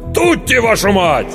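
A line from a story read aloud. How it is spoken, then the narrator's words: Terrified yell. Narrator (Russian): Стэн заорал от ужаса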